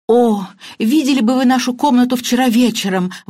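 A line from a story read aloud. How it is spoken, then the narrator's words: Exclaimed. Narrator (Russian): воскликнула мисс Баннер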